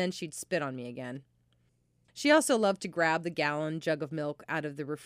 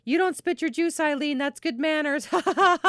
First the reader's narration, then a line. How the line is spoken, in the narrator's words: I get angry and yell at her, which usually made her laugh harder, and she'd say